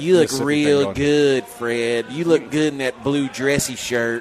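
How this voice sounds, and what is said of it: Put-on Southern US accent. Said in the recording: “What about, like Mississippi accent? ... Alabama.”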